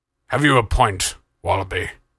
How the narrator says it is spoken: Crust grumbled

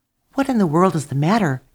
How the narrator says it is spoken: asked the birds sleepily

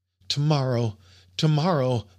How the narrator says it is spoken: I cried in my delirium

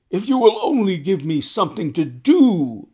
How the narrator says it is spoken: was his constant wail

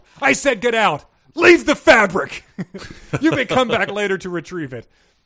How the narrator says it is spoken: The prince yelled

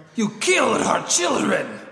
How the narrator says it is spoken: shouted

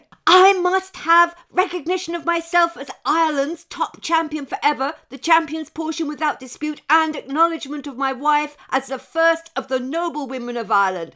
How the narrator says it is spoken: yelled the boy

